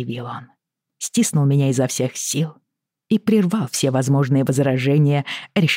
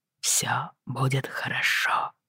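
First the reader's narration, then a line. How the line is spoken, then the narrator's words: Whispered reply. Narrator (Russian): прошептал он в ответ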